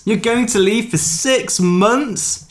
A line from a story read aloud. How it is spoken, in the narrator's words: She yells